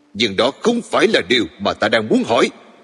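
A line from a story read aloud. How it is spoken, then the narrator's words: Near shout. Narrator (Vietnamese): gần như quát lên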